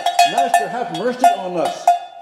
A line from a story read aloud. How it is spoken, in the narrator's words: all together, we yelled out